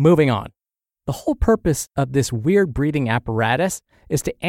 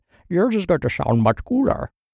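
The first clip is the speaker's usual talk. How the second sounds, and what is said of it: Imitates a masked movie villain's voice. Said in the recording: “That was my Bane impression.”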